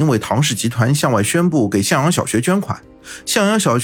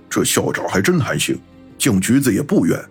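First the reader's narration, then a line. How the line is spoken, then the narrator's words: Muttering. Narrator (Chinese): 老飞在一边嘀咕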